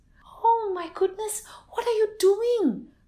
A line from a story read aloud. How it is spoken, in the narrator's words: cried the Kampung Asam woman